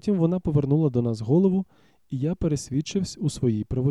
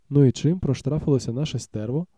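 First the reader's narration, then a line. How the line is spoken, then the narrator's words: Plain question. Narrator (Ukrainian): запитав Рендом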